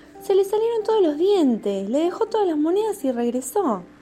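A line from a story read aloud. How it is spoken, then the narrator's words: Surprised exclamation. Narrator (Spanish): García se metió en la habitación del abuelo y al ver una dentadura postiza exclamó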